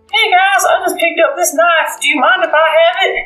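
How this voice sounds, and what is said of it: Small, meek character voice. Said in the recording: “in his little voice”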